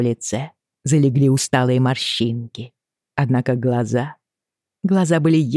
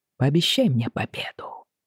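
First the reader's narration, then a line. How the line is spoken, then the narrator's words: Whisper. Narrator (Russian): прошептал Джейми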